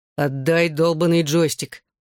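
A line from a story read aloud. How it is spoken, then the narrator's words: Growled. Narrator (Russian): прорычал Джонни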